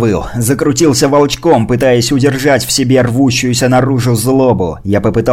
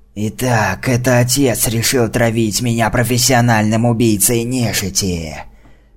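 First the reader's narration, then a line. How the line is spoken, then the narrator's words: Monster hissing. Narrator (Russian): Прошипело чудовище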